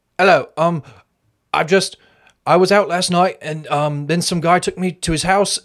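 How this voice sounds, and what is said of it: Attempted British accent. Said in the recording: “are, you gonna um, do, to do an accent? You gonna do a British accent? ... I can try.”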